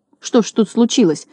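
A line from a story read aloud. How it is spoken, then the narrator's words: Confused mutter. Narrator (Russian): растерянно пробормотал Знайка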